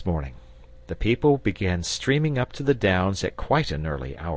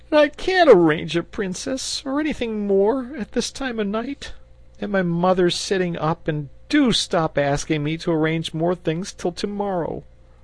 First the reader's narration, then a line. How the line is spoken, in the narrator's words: he wailed